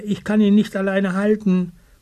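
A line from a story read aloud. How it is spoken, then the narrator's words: Calling. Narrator (German): ruft Eddybär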